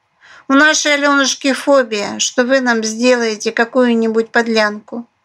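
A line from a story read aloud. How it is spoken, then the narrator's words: Snorting. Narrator (Russian): фыркнула крыса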